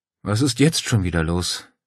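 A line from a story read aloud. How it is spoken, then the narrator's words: Sighed. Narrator (German): seufzte Claudia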